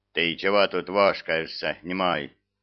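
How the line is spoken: Stern demanding question. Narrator (Russian): грозно вопросил старший техник

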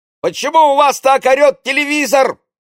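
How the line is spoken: Indignant shout. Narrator (Russian): возмущенно крикнул он

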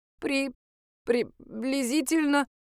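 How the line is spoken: Babbled timidly. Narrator (Russian): пролепетал Даня

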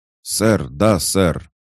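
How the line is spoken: Thunderous shout. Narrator (Russian): Будто бы гром прогремел

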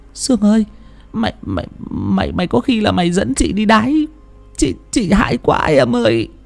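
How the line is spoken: Trembling, frightened old woman. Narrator (Vietnamese): Bà Sang hãi quá run rẩy quay sang bảo bà Sương

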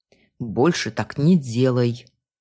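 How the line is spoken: Grumbled. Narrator (Russian): проворчал он

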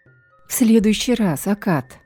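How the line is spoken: Tired promise. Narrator (Russian): устало пообещала я

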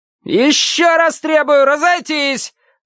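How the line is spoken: Thin-voiced yell. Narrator (Russian): тонким голосом завопил поп-зоповский командир

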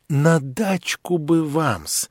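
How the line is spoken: Timid. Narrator (Russian): робко подвел Лебедев

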